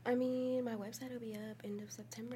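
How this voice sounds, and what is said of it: Whispering. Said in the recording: “Why are you whispering? ... I don't know why I'm whispering.”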